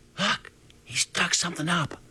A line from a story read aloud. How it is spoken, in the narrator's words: Circus whispered